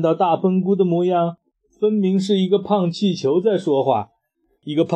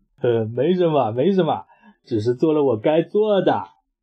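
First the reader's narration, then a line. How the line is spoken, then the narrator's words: Cheerful laughing. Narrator (Chinese): 他依然笑呵呵的说道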